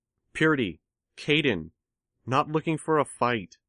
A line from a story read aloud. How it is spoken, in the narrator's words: Tattletale called out